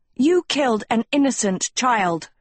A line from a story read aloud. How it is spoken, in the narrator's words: Agatha yelled